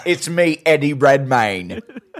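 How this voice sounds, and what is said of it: Over-the-top British accent. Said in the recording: “Just the most over the top British accent.”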